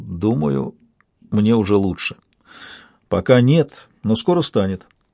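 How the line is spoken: Uncertain. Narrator (Russian): неуверенно похлопал меня по запястью и сказал

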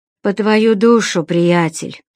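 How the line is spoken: Sighed, unseen prisoner. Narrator (Russian): вздохнул невидимый сиделец

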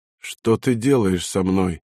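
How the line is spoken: Altered-voice whisper. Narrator (Russian): изменившимся голосом прошептал

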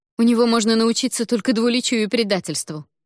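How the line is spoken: Scornful snort. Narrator (Russian): фыркнула принцесса

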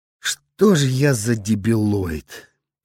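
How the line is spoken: Moaning. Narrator (Russian): простонал он

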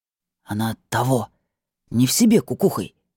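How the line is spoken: Quiet whisper. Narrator (Russian): добавил тихим шепотом

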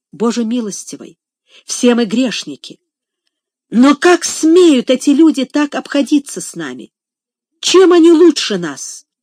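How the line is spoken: Deeply agitated exclamation. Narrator (Russian): с глубоким волнением воскликнула

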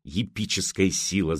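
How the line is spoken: Hissed. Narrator (Russian): зашипел он

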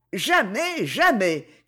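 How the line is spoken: Shouting. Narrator (French): criait Christine

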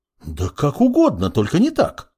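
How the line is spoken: Healer exclaiming. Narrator (Russian): воскликнула целительница

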